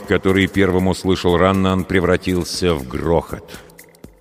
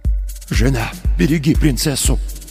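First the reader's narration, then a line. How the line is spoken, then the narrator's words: Father's whisper. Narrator (Russian): прошептал отец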